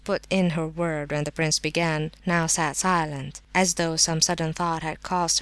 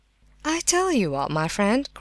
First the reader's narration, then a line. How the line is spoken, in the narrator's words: cried Mrs